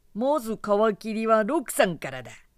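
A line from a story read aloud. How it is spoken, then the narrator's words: Spiteful jeering. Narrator (Japanese): 誰かが意地悪くそれにはした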